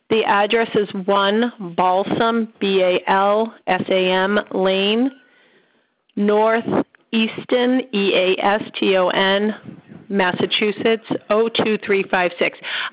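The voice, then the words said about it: Boston accent. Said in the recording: “my Bostonian accent comes out and people don't understand what I'm saying”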